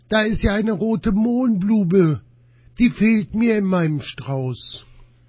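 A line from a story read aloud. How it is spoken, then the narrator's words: Called out. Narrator (German): rief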